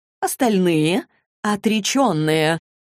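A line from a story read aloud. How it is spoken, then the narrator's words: Unexpectedly joyful. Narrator (Russian): Неожиданно радостным тоном отозвалась Доротея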